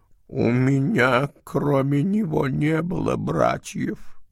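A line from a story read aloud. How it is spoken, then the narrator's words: Completely emotionless voice. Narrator (Russian): прибавил он, но совершенно бесчувственным голосом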